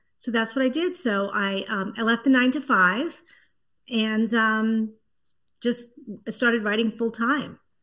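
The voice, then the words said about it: Slight East Coast Brooklyn accent. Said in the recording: “I can kind of hear a little bit of that East Coast kind of Brooklyn-y, Boston-y accent”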